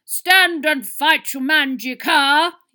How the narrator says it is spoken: yelled Sucker Dogan

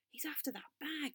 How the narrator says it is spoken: whispered Joe

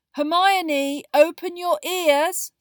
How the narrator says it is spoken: said Ron loudly

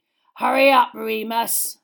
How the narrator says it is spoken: snarled, with a horrible sort of hunger in his face

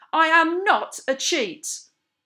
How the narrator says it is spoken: a sort of blind fury took hold of me and I shouted back at him

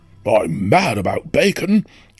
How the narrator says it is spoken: cried Badger, dancing with excitement

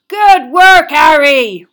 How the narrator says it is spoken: roared Hagrid

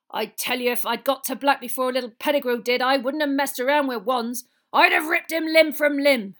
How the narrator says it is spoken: Hagrid growled

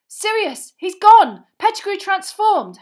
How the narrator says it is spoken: Harry yelled

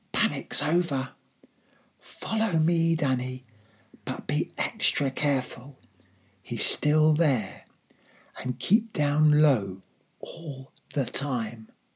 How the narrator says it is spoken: I heard my father whisper

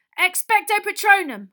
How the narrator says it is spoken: Harry yelled

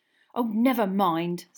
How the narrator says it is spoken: snapped Parvati

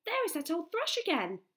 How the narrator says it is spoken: cried

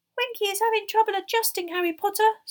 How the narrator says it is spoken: squeaked Dobby confidentially

